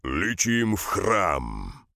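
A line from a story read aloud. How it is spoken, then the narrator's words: Growled. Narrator (Russian): Шабар прорычал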